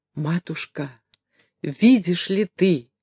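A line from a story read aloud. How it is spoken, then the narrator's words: Rapid whisper. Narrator (Russian): часто шептал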